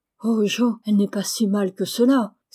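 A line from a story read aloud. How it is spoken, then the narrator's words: Astonished exclamation. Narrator (French): s'écria Laurie stupéfait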